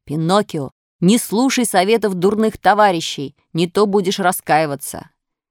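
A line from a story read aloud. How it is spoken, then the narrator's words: Bird calling out. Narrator (Russian): белый дрозд крикнул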